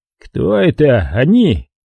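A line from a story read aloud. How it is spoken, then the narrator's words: Said through clenched teeth. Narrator (Russian): процедил Люкази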